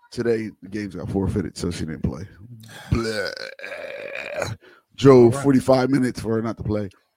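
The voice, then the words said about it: Strained, fading hoarse voice. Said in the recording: “my voice is kind of going... Yesterday, I was screaming.”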